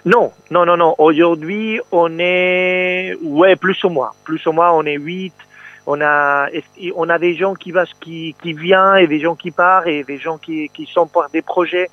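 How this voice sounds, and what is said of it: Slight Spanish accent in French. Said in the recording (French): “il y a un petit accent dans votre voix ... Vous respirez le soleil quand vous parlez ... je suis espagnol”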